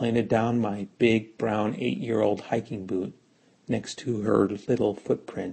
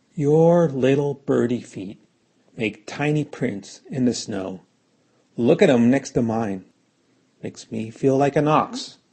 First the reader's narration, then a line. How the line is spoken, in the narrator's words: I just called out